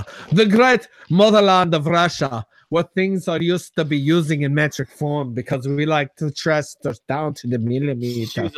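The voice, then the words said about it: Bad put-on Russian accent. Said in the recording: “Horrible accent, by the way.”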